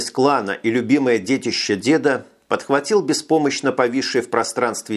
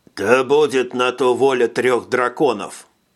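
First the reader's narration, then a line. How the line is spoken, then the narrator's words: Grumbled. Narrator (Russian): пробурчал Пацак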